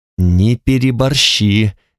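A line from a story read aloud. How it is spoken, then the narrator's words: Through gritted teeth. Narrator (Russian): говорила Танталь сквозь зубы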